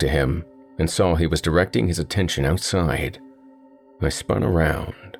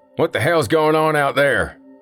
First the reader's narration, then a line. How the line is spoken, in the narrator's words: one of the patrons said loudly